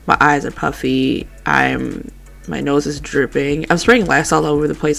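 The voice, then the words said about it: Stuffy, congested voice. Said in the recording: “if I sound stuffy because I am having a major allergy attack”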